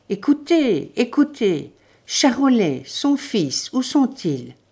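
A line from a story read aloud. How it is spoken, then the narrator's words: Stammering. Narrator (French): Elle balbutia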